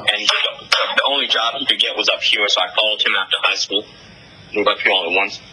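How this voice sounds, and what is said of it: Northeastern American accent. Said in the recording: “you have like a northeastern accent ... I definitely hear a northeastern ring to your voice”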